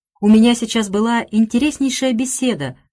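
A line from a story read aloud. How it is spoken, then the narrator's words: Exclamation. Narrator (Russian): воскликнула она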